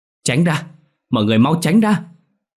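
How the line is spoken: Shouted. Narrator (Vietnamese): hét lên

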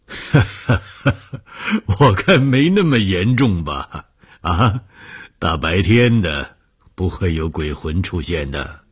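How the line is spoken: Laughing. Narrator (Chinese): 红鱼笑了说

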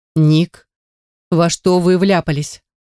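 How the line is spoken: Stern, hiding terror. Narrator (Russian): Спрашиваю строго, хотя внутри меня все сжимается в комок от ужаса

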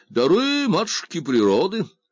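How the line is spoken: Cheerful agreement. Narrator (Russian): весело согласился покорный слуга

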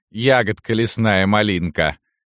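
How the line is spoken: Laughing. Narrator (Russian): засмеялась Салтычиха

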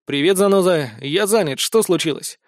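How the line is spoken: Irritated reply. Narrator (Russian): раздраженно ответил ему

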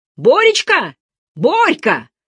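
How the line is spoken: Shouting into darkness. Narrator (Russian): закричал Сашка во тьму

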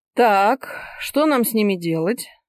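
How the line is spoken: Icy-voiced question. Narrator (Russian): ледяным голосом спросил олигарх

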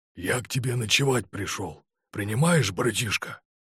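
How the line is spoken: Whisper. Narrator (Russian): зашептал он

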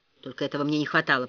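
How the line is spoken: Mumbling to himself. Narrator (Russian): пробормотал Ричард, никому в сущности не обращаясь

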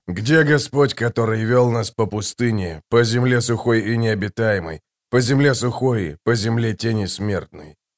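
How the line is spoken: Muttering. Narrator (Russian): пробормотал он

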